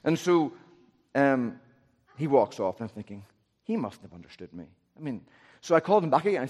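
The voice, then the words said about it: Northern Irish accent. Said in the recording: “I'm from Northern Ireland. My accent's really hard.”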